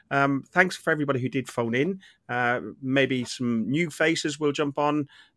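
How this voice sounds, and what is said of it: Strained, failing voice. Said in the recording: “my voice is really, really, really starting to go”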